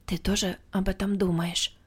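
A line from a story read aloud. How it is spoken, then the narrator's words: Quiet question. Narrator (Russian): тихо спросила меня Ула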